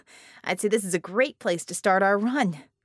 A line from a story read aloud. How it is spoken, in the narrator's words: laughed